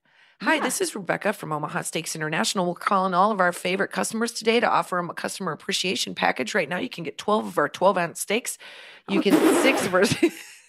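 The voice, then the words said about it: Warm, neutral Midwestern telemarketer voice. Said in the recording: “It's because of the accent. Because the accent is like, it's seemingly warm and neutral”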